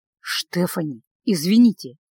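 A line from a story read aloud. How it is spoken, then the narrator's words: Near whisper. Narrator (Russian): почти прошептал Николас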